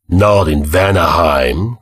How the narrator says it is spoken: growled the black-haired warrior

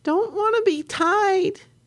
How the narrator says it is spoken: Virginia screamed

